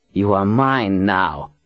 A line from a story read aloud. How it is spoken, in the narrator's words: sneered